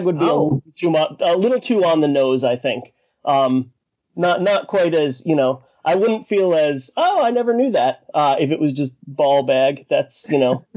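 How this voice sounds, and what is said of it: Massachusetts accent. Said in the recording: “I don't know if I can blame the, Massachusetts accent for that”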